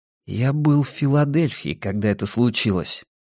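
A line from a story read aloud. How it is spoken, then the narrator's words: Quiet. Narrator (Russian): тихо проговорил Арни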